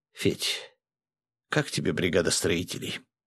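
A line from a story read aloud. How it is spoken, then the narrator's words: Whispered in ear. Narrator (Russian): шепнул Костя на ухо полицейскому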